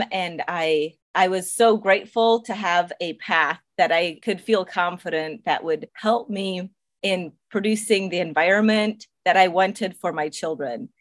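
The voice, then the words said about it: Slight non-native English accent. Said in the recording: “I do detect an accent. Just sounds like someone who did not grow up speaking English, and you speak English perfectly ... my first language was a dialect of German. We call it Pennsylvania Dutch.”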